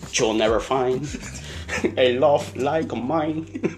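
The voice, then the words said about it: Singing in a heavy Cuban accent. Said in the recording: “he had a real heavy, you know, Cuban, he had a real heavy accent ... Him singing, but with a heavy accent”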